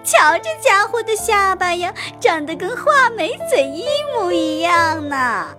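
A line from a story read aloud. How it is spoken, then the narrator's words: Loud laughing speech. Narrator (Chinese): 他一边放声大笑，一边高声地说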